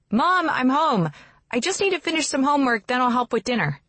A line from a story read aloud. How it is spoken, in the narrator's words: From inside the house, I hear Val shouting